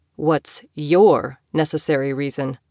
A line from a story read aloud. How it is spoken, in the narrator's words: he asked